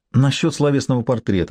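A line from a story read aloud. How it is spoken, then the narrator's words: Sweet voice. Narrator (Russian): начала Ким милым голосом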